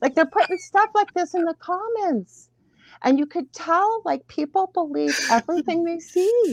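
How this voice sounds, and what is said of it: Usual voice. Nothing is said of it.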